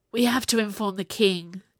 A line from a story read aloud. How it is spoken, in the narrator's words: Dennis choked